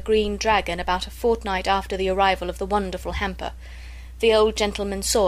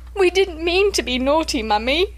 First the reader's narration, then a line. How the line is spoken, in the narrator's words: sobbed Bobby